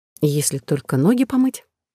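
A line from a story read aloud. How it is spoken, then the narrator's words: Uncertain drawl. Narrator (Russian): Неуверенно протянув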